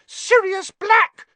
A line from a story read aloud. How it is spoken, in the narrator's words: she shrieked